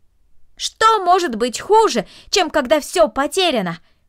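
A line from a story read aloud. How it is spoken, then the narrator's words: Shouted after her. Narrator (Russian): крикнул ей вслед Дино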